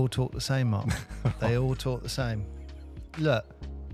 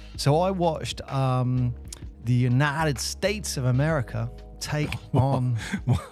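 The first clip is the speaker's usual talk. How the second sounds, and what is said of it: Put-on American accent. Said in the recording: “That was my American accent.”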